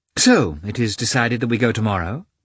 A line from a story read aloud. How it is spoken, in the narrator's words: she said in a cheerful voice